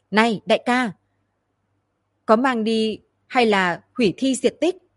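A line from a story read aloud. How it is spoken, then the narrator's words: Loud question. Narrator (Vietnamese): Từ Mã Tiên cao giọng hỏi hướng Hạo Thần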